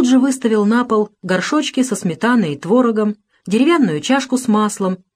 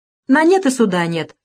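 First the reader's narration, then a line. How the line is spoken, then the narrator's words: Soldier's cheerful speech. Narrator (Russian): весело сказал солдат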